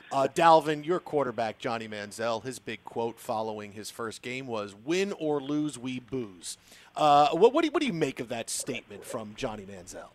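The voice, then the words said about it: Mock-serious interviewer voice. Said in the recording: “I'll get a real serious voice and ask it... I'll get real serious.”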